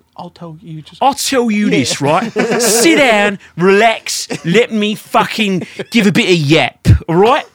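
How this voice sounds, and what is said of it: Put-on English accent. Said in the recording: “Was that about to be an English accent?”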